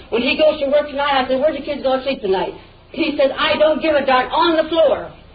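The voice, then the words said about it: Shouting, yelling. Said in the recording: “why you're yelling at me”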